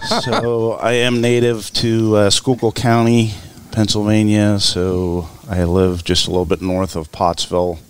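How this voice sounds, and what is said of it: Pennsylvania coal region accent. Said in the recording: “I'm sensing it's not South Philly ... that is a coal region accent.”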